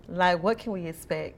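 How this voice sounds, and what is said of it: Sexy, sultry voice. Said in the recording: “your sexy voice”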